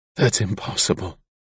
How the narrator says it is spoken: Kalexel whispered

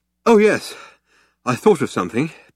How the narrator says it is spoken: panted Ford

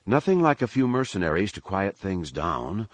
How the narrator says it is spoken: Leia replied dryly

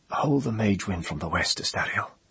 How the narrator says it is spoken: He said, whispering

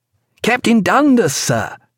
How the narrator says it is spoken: cried Stephen

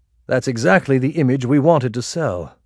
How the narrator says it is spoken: Kingsley answered

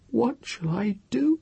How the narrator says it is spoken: she whimpered aloud, and felt her tongue dry and swollen in her mouth

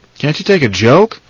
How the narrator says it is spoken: Lemur grumbled

